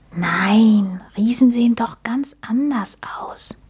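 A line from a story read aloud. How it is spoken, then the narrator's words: Whispered. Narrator (German): flüsterte Max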